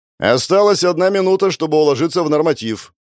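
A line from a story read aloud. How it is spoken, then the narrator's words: Shouting assistant. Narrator (Russian): закричал помощник Платонова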